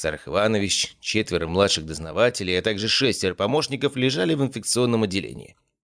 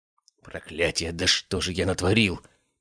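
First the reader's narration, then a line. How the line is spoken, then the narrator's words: Hissed under breath. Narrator (Russian): прошипел себе под нос Аристарх Биркин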